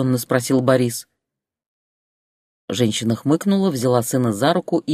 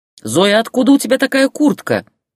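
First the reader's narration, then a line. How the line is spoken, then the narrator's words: Shouted after someone. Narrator (Russian): крикнул он ей вслед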